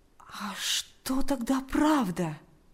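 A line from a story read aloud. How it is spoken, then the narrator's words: Quiet question. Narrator (Russian): тихо спросил Павел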